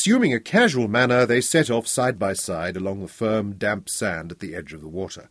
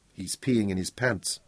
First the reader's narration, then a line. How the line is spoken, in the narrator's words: Bonnie murmured